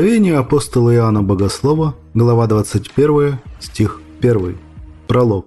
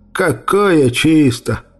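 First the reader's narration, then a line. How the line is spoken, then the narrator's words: Grumbling under breath. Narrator (Russian): ворчал себе под нос Ларсон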